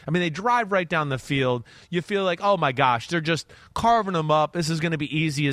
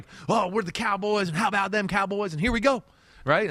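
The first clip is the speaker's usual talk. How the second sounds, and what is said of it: Put-on Texas accent. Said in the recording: “that was my Texas accent.”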